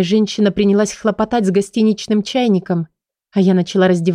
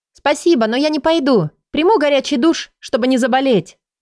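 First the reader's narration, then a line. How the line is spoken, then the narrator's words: Shouted through door, near tears. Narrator (Russian): прокричала сквозь дверь, потому что боялась опять зареветь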